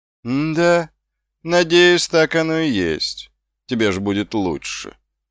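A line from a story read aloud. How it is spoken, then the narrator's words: Lazy drawl. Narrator (Russian): лениво протянул стражник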